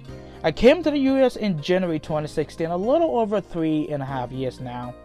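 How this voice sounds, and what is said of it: Liberian English accent. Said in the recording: “As you can already tell by my accent, I'm originally from Liberia.”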